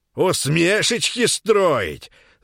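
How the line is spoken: Old man shouting. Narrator (Russian): закричал дед

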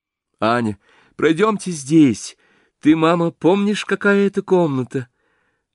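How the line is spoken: Joyful through tears. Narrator (Russian): Любовь Андреевна радостно сквозь слезы

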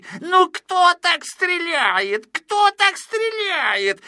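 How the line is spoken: Irritated shouting. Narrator (Russian): закричал с раздражением Клопс

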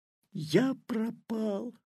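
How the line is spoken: Whisper. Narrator (Russian): прошептал Петя

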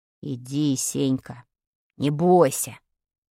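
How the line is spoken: Plain. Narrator (Russian): сказал Вадик

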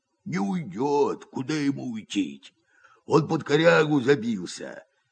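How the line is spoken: Hoarse, muffled deep bass. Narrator (Russian): говорит Герасим охрипшим глухим басом, идущим не из гортани, а из глубины живота

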